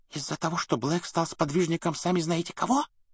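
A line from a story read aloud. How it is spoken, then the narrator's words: Whisper. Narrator (Russian): прошептала мадам Розмерта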